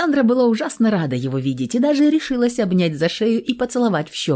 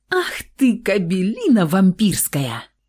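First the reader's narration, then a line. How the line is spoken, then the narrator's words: Hissed whisper, choking laughter. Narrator (Russian): Зашипела девушка шепотом, давясь смехом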